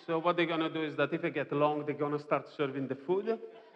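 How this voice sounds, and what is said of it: Strong foreign accent. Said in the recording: “I'm a foreigner. I know you have a strong accent. Some people have actually said, Oh, we found difficult to understand when you speak.”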